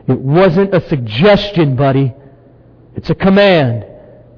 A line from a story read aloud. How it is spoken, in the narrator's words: The guy who had grabbed Dad snarled at him